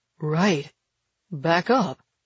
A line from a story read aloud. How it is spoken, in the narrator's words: he mumbles